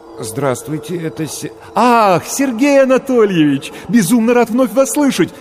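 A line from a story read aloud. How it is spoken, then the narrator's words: Joyful rapid chatter. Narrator (Russian): радостно затараторил голос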